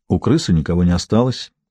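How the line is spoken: Quiet speech. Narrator (Russian): тихо сказала Маура

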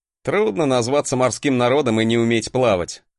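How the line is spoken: Short laugh. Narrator (Russian): хохотнул я

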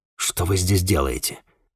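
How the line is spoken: Gruff mumble. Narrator (Russian): буркнул я

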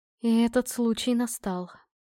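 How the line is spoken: Solemn. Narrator (Russian): торжественно добавила она

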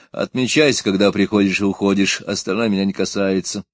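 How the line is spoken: Dry, curt statement. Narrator (Russian): Старший смена сухо сказал

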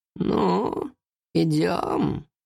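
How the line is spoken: Creaky voice. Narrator (Russian): скрипучим голосом произнесла

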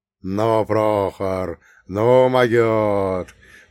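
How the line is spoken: Delighted drawl. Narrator (Russian): только и протянул восторженно Прокоп

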